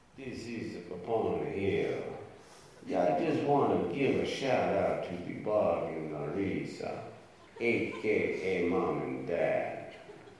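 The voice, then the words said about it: Put-on Italian accent. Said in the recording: “kind of with that Italian accent ... I gave my best Italian accent”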